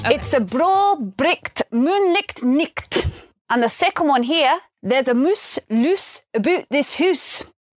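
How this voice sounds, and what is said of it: Scottish accent. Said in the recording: “the Scottish accent was voted sexiest ... that's a Scottish dialect coach showing off the hot accent”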